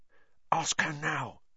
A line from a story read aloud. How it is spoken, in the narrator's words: Ron hissed at Harry